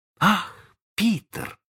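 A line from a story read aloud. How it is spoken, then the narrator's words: Exclaimed. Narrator (Russian): воскликнула она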